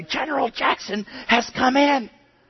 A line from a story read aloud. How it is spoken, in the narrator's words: the whisper was audible to most of the church